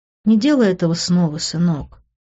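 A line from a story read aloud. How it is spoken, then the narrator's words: Sad. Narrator (Russian): печально покачала головой она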